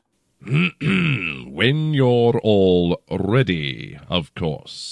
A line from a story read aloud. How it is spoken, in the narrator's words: he drawled